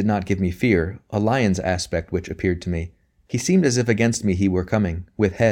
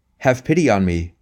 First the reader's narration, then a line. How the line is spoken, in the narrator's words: I cried